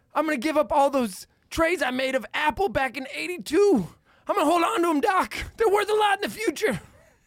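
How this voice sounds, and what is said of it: Imitates another person's voice. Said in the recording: “One of your better impersonations. That was great.”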